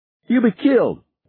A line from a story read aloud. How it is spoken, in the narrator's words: Harry shouted